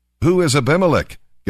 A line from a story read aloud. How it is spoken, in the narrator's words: Gael shouted